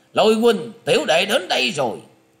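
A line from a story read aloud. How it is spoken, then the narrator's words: Big man's loud shout. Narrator (Vietnamese): một gã đàn ông thân hình to lớn, quát to lên rằng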